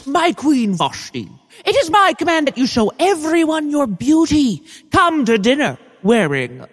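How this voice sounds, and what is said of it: Man putting on a woman's voice. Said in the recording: “doing the lady voice”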